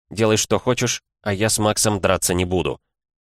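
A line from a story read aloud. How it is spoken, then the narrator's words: Quiet. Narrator (Russian): я тихо сказал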